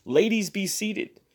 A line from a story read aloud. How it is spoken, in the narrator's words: might have cried or been tempted to cry